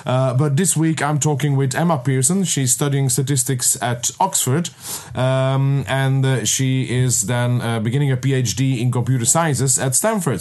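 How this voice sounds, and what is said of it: Unusually deep, strained voice. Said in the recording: “my voice is not what it used to be, so I'm sounding a bit like Barry White”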